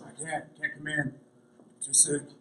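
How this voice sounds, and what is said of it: Fake sick gravelly voice. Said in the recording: “I'd sound really sick ... gave the gravelly voice.”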